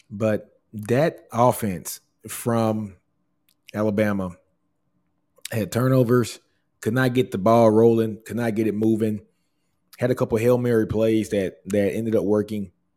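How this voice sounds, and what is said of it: Strained voice cutting in and out. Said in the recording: “if you guys can hear my throat, I'm telling you, man, my voice is in and out today”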